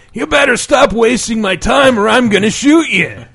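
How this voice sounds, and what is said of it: Impression of video game character John Marston. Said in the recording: “my John Marston impression”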